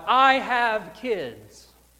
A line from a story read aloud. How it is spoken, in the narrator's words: In an effort to survive this attack, he yelled out